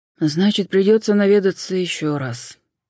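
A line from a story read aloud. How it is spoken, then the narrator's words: Sympathetic sigh. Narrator (Russian): с сочувствием глядя на нее, вздохнул Суарес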